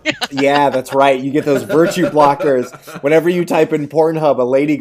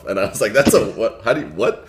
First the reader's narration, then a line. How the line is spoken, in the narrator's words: I grumbled in a sexy voice